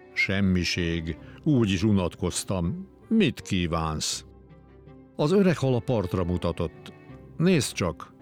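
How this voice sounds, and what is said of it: Deep character voice. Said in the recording (Hungarian): “A nagy harcsa mély hangon válaszolt.”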